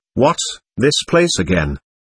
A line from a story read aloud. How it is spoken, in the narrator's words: Mentally I murmured